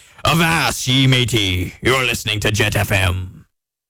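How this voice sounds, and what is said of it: Put-on pirate voice. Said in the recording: “I might do my whole show talking like a pirate.”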